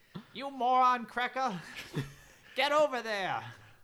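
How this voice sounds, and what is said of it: Bad impression of an actor. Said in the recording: “This is just turning into our impressions of stars from Home Alone ... It's turning into our bad impressions of the stars from Home Alone”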